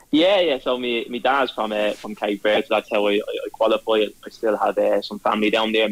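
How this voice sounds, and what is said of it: Dublin Irish accent. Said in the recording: “listening to the Dublin accent”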